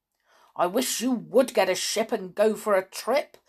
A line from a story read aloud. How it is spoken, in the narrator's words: grumbled the cat